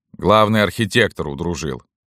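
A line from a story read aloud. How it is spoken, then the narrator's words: Plain. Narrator (Russian): сказал старшина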